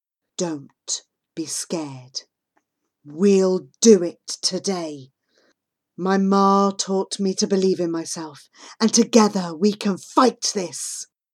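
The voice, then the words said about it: Lowered, quiet voice. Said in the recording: “I lower my voice.”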